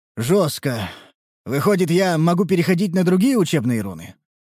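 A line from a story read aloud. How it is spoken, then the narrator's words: Sighing. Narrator (Russian): Вздохнул я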